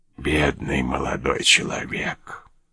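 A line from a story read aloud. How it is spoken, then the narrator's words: Whisper. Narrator (Russian): прошептал слуга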